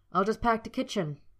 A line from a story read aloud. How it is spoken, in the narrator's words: Harry snapped, wanting to be anywhere but with Draco